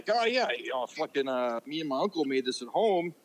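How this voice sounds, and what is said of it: Poor put-on Mexican accent. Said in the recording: “your half-assed Mexican accent. ... That was so shitty, dude.”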